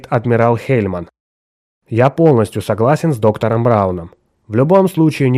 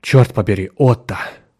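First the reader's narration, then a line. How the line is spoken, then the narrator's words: Gruff mutter. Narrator (Russian): буркнул Браун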